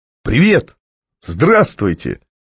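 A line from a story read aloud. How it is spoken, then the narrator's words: Strained exclamation. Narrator (Russian): выдавил немного натужную улыбку и воскликнул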